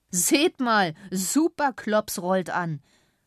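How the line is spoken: Called out. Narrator (German): rief einer

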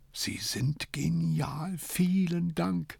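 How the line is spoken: Whisper. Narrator (German): flüsterte

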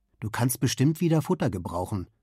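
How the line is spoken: Plain. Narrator (German): sagt Edwin

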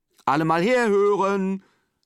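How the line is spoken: Mother calling out. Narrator (German): ruft Simons Mutter, als alle Kinder da sind

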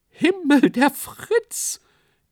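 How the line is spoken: Shrieking. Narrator (German): kreischte jemand auf der Bühne

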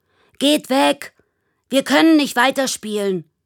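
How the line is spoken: Angry shout. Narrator (German): ruft Michi erbost

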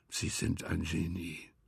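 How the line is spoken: Quiet. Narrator (German): sagte er leise

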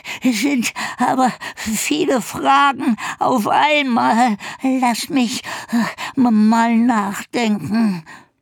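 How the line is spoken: Panting. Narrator (German): keuchte

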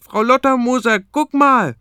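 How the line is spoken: Loud open-mouthed call. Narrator (German): sperrt er den Mund weit auf und ruft

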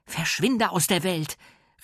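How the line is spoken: Shouting into the phone. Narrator (German): rief Mia an den Hörer

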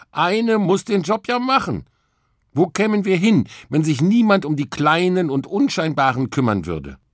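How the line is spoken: Calling out. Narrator (German): rief Emma

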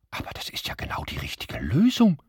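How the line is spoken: Stunned whisper. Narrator (German): flüsterte Frau Büsselm fassungslos

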